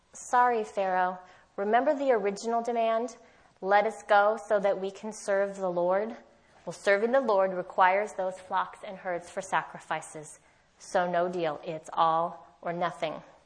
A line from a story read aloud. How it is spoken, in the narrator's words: Moses calmly explains